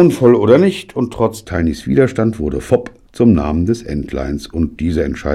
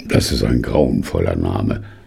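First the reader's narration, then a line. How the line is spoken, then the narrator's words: Groaning. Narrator (German): stöhnte Tiny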